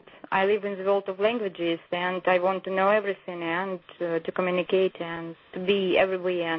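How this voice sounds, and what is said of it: Charming foreign-accented English. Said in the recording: “You have such a lovely accent in America... speaking English with your lovely accent, it's very, very charming”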